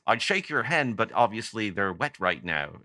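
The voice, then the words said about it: Imitates another person's accent, badly. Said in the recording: “I do a bad Andy Partridge impression because I'm fascinated with that accent.”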